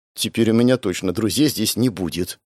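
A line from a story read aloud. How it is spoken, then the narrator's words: Grumbling mutter. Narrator (Russian): пробурчала она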